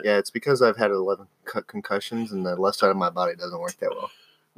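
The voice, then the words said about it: Monotone, side-of-mouth voice. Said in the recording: “in my monotone talk out of the right side of my mouth voice”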